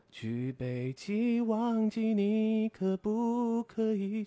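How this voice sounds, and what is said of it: Singing imitation, husky smoker's voice. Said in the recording (Chinese): “我可以模仿费玉清了……就是有点抽烟抽多的费玉清老师”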